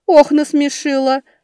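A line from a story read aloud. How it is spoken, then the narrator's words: Ringing laughter. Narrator (Russian): Боярыня и впрямь звонко рассмеялась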